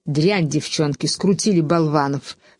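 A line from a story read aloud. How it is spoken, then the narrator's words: Hissing voices. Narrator (Russian): шипели другие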